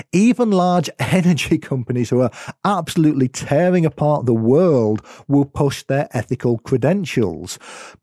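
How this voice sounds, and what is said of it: British accent. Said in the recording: “I'm going to be referencing UK data because, as you might have been able to tell from my accent, it's where I am in the world”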